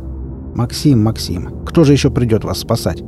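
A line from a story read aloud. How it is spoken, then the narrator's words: Muttered. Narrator (Russian): пробурчал я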